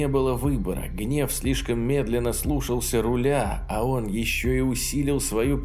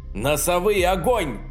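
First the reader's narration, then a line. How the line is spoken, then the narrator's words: Desperate shout. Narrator (Russian): отчаянно выкрикнул Саймонс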